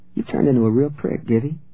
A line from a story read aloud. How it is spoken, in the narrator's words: she said coolly